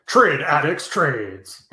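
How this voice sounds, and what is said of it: Imitates another person's voice. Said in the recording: “my best Brian impression”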